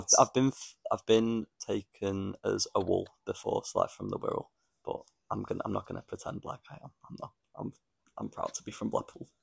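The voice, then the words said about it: Northern English accent with Scouse twang. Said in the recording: “you've literally adapted a completely new accent. We're living in Liverpool. ... Scouse has thought it's a bit more of a twang. We probably see it as more of a full-on accent.”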